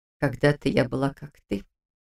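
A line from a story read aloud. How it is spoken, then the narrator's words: Unusually quiet. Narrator (Russian): непривычно тихо сообщила она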